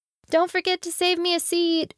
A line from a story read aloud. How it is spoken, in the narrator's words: she called out after him